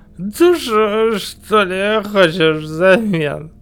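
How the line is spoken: Laughing. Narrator (Russian): Засмеялся

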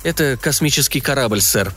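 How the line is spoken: Even voice. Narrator (Russian): ровным голосом сказал Фредди

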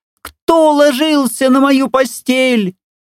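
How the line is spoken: Piercing terrified shriek. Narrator (Russian): завизжал так, как будто его режут

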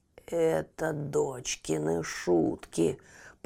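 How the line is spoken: Creaky, through gritted teeth. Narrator (Russian): проскрипел великан сквозь зубы

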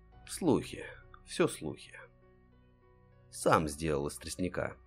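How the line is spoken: Gloomy reply. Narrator (Russian): мрачно отзывался Гард

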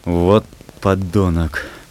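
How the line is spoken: Growled through teeth. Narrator (Russian): прорычал сквозь зубы Истомин

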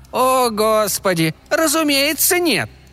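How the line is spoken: Irritated exclamation. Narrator (Russian): раздраженно воскликнул старый серебряный шип

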